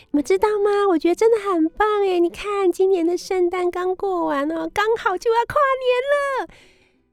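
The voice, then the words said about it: Cute young female DJ voice. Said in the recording (Chinese): “一个很应该是可爱女生 DJ 又很可爱的声音”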